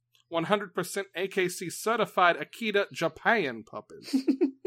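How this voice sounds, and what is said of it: Put-on Southern accent. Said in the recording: “My southern accent activation phrase.”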